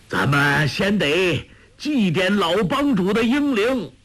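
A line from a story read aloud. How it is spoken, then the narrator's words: Loud. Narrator (Chinese): 鲁有脚却高声说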